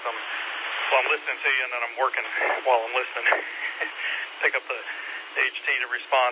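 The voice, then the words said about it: Out of breath, breathless speech. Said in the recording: “I'm out of breath ... I'm getting a little out of breath”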